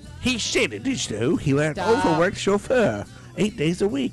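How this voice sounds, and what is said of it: Imitates another person's voice. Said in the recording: “don't do the voice ... Paul McCartney's like very distinct. I can do it.”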